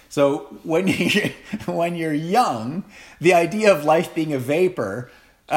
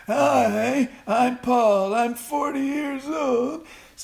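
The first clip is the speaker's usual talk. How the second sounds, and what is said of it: Imitates a 40-year-old man's voice. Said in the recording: “my impression of a 40-year-old”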